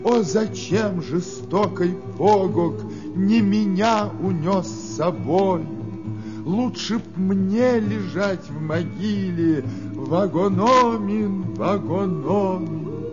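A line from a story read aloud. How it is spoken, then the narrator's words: Long wailing sobs. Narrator (Russian): Долго с криками рыдала, долго плакала Нокомис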